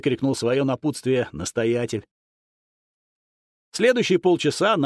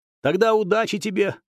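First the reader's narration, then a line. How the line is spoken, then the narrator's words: Girl shouting. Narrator (Russian): крикнула девчонка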